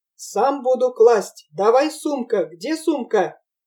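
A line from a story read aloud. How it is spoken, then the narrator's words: Shouting. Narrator (Russian): Черкес закричал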